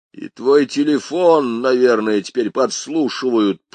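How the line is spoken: Growl. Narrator (Russian): прорычал я

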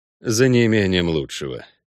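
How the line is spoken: Sigh. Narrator (Russian): вздохнул Геральт

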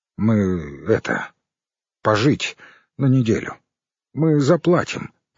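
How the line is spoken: Uncertain mumble. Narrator (Russian): неуверенно пробормотал Леший

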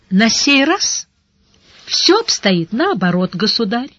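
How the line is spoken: Pleasant-voiced reply. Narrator (Russian): приятным голосом отозвался мастер печальных церемоний

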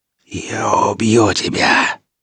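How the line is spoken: Hateful rasping witch. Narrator (Russian): прохрипела ведьма с ненавистью

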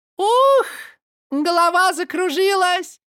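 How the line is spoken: Cried out. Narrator (Russian): крикнула Каролина

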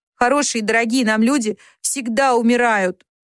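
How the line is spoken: Moaning. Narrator (Russian): простонала Джо

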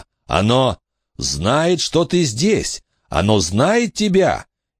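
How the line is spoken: Shouted. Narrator (Russian): Билли закричал

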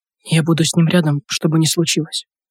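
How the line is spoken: Whispered. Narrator (Russian): прошептала

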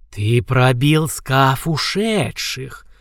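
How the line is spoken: Stunned hiss. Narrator (Russian): прошипел ошарашенный рептилоид

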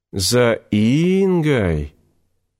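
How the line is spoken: Old man's drawl. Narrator (Russian): Протянул старик

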